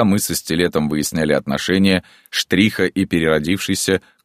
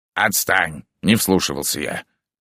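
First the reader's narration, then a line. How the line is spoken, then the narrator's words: Grumbling. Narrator (Russian): проворчал Стилет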